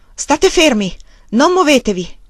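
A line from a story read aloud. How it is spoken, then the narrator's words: Shouted into stove pipe. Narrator (Italian): Con la bocca vicina al tubo della stufa gridò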